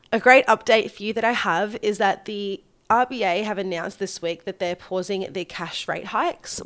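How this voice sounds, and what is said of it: Slightly congested, funny-sounding voice. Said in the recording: “I've come down with a little bit of a head cold. So bear with me if my voice sounds a little bit funny”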